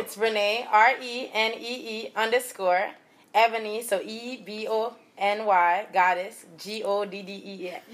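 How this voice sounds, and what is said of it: Caribbean island accent. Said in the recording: “Y'all hear that accent? ... from the islands.”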